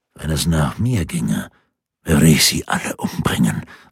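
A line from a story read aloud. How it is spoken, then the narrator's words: Lowered voice. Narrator (German): sagte Schwarz mit gesenkter Stimme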